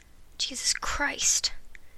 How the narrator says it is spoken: Marty muttered

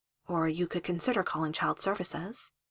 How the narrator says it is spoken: Jessica said gently

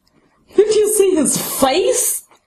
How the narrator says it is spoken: Greg gasps, still bent over, tears streaming down his face

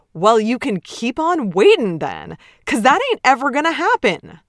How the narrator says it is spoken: Ted shouts

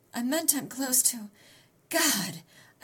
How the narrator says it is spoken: I gasped

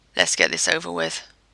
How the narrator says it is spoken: he growled

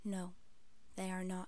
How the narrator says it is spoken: Spock bent down and whispered in his ear

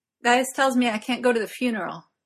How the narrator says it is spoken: he blurts out

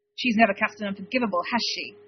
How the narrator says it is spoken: Harry snapped

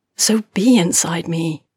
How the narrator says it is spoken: Mercy says, annoyed at the desperate, pleading tone in her voice

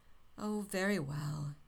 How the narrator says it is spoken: he sighed

